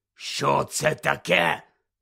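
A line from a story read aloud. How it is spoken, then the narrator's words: Hoarse question. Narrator (Ukrainian): захрипло спитав дядько Вернон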